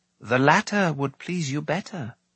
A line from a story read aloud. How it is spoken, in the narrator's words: Dalban said softly